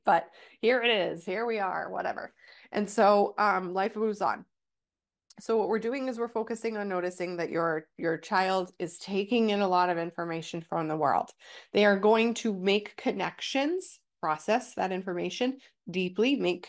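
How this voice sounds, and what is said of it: Stuffy, nasal congested voice. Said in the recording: “I'm getting over a cold, so if I sound a little stuffy ... my nasally voice will go away a little bit”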